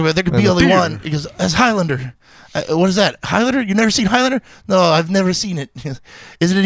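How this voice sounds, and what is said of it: Usual voice. Nothing is said of it.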